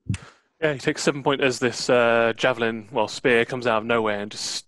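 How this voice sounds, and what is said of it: Usual voice. Nothing is said of it.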